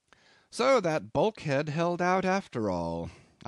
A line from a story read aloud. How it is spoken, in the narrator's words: I remarked cheerfully